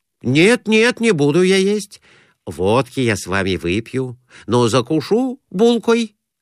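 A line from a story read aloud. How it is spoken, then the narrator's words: Plain. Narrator (Russian): сказал Конурин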